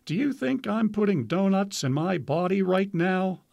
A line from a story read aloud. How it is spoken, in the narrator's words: Freeman replied, laughing